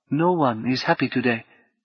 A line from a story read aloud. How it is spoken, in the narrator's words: Habu said quietly